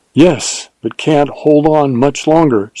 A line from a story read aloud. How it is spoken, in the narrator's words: she panted